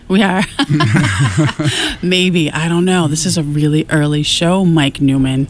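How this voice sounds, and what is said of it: Sleepy, not-yet-awake voice. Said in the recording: “My voice is still not awake. You can hear it.”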